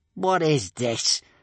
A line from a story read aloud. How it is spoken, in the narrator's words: snarled Gumboil